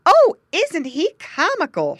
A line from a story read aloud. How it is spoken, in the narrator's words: she cried